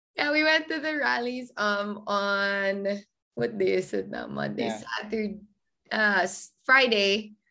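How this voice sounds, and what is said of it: Strained, worn-out voice. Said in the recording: “my voice is this bad right now”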